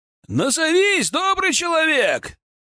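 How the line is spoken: Shout from behind wall. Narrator (Russian): выкрикнули мне из-за стены усадьбы

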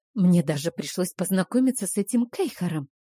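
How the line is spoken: Whispered complaint. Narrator (Russian): понизив голос до шепота, пожаловалась я

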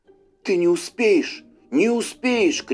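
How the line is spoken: Shout. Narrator (Russian): крикнул он встречному

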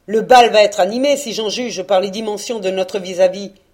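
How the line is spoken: Sneering. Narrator (French): ricana Postec

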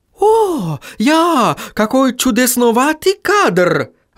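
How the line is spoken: Exclaiming. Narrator (Russian): воскликнул Отто

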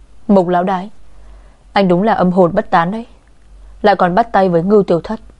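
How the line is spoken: Through gritted teeth, seething. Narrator (Vietnamese): cô nghiến răng nghiến lợi gằn giọng

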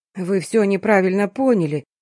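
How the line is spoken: Frightened babbling. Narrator (Russian): испуганно залепетал доктор

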